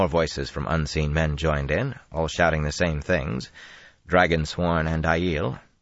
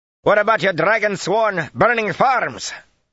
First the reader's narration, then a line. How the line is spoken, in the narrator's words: a man's frightened voice shouted from the trees